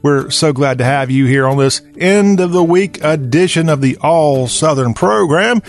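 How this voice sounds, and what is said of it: Southern American accent. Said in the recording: “talk with a Southern accent”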